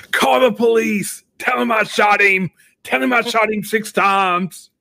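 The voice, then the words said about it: Imitates a film character's voice. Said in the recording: “that was a decent impression”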